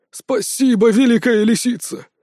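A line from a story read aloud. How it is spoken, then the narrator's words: Servile exclamation. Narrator (Russian): подобострастно воскликнул лакей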